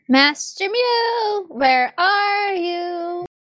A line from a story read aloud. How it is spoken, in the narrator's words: you hear out in the hallway a young voice saying